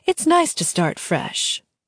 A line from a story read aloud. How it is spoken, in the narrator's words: the queen said smoothly